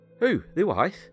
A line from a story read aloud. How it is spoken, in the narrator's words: asked John